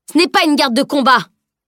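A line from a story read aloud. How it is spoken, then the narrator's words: Yelled without worry. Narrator (French): hurla cependant celui-ci, sans manifester d'inquiétude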